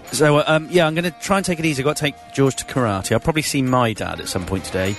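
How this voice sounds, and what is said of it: Tired voice, starting to go. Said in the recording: “I'm tired and my voice. I can hear my voice is going.”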